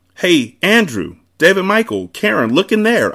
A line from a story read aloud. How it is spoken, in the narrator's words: I cried